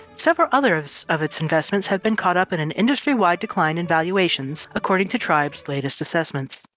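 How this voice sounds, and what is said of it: Newscaster voice. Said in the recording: “I will turn off my newscaster voice”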